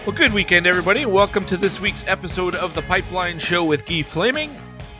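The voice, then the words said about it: Congested, slightly sick-sounding voice. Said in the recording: “I'm a little congested, though, so I apologize for that. If I sound sick,”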